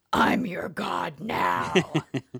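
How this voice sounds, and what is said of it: Growly menacing character voice. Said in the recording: “he has the digitized like crazy growly voice now ... I don't know if I did that voice right. You probably need some SFX in there.”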